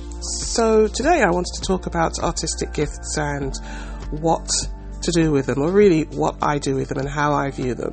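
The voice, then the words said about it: Hoarse voice from a cold. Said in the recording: “I got like a second cold... my voice is hoarse”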